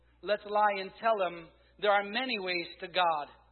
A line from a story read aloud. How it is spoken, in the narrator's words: Another shouted